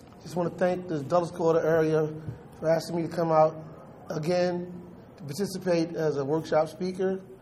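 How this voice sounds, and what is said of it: Hoarse, nearly lost voice. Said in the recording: “I've been working the registration desk for the last 14 hours, and my voice is pretty much gone.”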